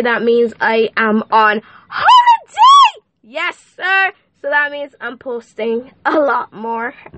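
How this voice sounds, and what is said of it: Excited, energetic voice. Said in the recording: “y'all can hear the excitement in my voice.”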